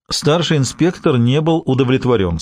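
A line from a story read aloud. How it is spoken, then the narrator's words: Plain. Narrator (Russian): сказал Бувар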